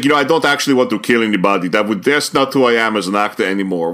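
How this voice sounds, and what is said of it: Imitates another person's voice. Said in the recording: “my impersonation of Arnold Schwarzenegger”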